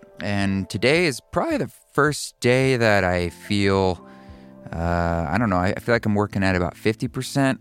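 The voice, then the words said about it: Voice sounds different, unwell. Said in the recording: “my voice sounds a little different. That is because I'm recovering from COVID.”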